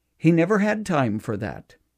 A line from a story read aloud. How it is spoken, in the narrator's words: a daughter finally said sadly